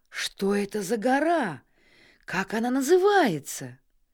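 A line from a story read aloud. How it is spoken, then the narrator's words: Amazed exclamation. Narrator (Russian): он изумленно воскликнул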